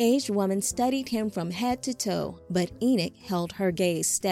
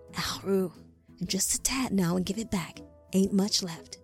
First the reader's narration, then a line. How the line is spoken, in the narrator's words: She looked over her shoulder and whispered